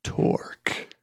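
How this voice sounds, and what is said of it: Put-on sexy voice. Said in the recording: “in my sexy voice”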